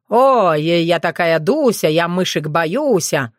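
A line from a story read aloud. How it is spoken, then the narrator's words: Angry mocking mimicry. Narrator (Russian): зло кривлялся Сергей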